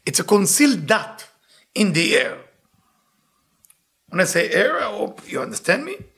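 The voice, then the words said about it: Speaks with a noticeable accent. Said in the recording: “With my accent, it means A-I-R.”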